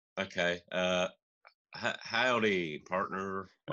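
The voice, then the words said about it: Put-on cowboy accent. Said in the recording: “don't put on the voice. That's offensive to our cowboy listeners.”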